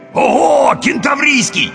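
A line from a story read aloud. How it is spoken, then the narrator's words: Ecstatic yell. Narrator (Russian): восторженно завопил первый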